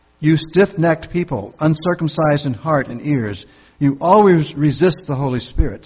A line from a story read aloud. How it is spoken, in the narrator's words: Stephen says